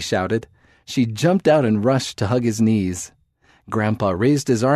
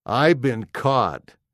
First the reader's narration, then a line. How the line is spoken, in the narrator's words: He laughed